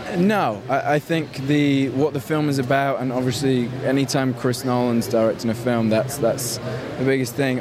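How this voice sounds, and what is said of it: Odd mixed British-American-Australian accent. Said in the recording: “He's got quite an American northern twang going on there. ... He's got the weirdest voice. ... it's up there in the UK via Australia.”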